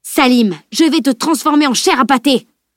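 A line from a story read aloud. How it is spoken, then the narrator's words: Shouted threat. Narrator (French): hurla le grand chevalier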